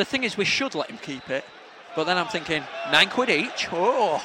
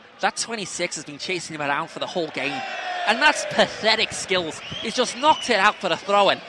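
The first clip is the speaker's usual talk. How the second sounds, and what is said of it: Put-on Scouse accent. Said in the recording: “I'll do Scouse, yeah?”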